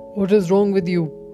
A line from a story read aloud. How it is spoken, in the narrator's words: growled the lion